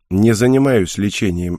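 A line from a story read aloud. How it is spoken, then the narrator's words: Dry. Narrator (Russian): ответил я сухо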